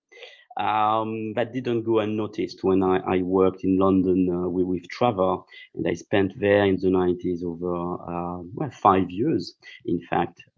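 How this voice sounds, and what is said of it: Strong French accent in English. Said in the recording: “I'm not British, so I'm French, speaking broken English with a very strange accent.”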